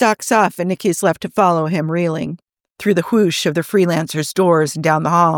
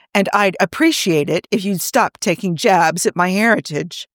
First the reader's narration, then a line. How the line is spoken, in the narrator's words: Joe says stiffly